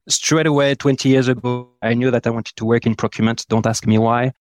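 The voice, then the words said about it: French-accented English. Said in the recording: “born 42 years ago in probably the most beautiful city in the world, Lyon in France. That's why my French accent.”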